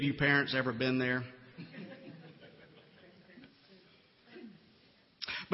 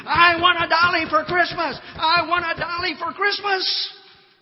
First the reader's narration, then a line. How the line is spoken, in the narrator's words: She screamed